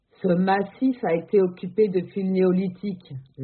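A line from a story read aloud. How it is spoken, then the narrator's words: Authoritative interruption. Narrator (French): la coupe Max d'une voix autoritaire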